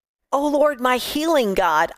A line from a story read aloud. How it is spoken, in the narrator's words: I cried out for a miracle